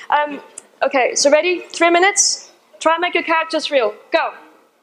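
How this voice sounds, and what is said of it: Irish accent. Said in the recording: “For whatever reason, I have an Irish accent right now.”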